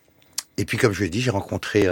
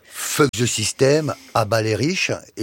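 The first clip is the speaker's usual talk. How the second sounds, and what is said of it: Exaggerated French accent in English. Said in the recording (French): “Avec un accent... Bien français.”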